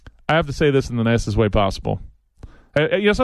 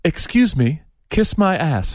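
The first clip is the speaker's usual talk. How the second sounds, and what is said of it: Put-on posh English accent. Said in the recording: “sometimes when you say things in an English accent, it sounds classier.”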